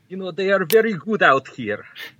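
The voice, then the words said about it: Put-on foreign accent. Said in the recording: “I can talk in this accent all time”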